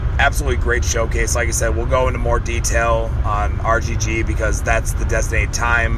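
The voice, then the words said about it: Hoarse, fading voice. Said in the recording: “I'm clearly losing my voice.”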